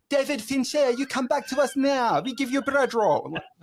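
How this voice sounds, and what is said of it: Attempted French accent sounding Italian. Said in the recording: “I should have done that with more of a French accent ... I got Italian then. I can't do it ... little Super Mario Brothers there”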